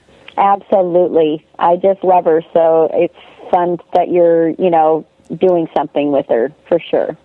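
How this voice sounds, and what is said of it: Hoarse, fading voice. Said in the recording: “I'm kind of losing my voice from teaching”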